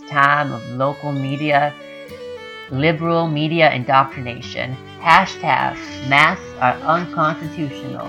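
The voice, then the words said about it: Attempted Texas accent, sounds Mid-Atlantic. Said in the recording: “that is a North Carolina mid accent, uh, mid Atlantic accent. Um, you didn't quite get it right ... I don't know how to do a Texas accent.”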